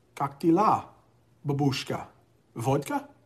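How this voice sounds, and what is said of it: Put-on Russian accent. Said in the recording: “my Russian accent.”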